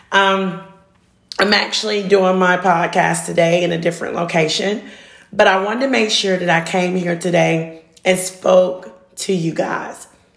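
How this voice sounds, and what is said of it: Raspy voice. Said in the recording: “this raspy voice”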